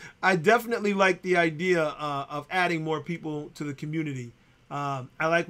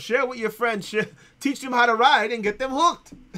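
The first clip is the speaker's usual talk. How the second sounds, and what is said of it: Imitates another person's voice. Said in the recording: “my Sean impersonation”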